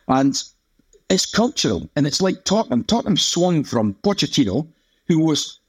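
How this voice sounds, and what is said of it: Mancunian English accent. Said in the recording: “my accent is thick with Mancunian vowels”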